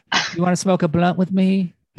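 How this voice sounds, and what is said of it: Soft impression of another person's voice. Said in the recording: “Is that your impression? ... do your Snoop ... It's turning into Michael Jackson. ... He has a very soft delivery.”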